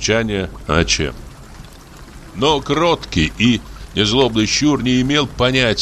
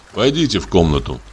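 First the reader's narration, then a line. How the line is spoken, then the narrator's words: Plain. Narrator (Russian): сказал я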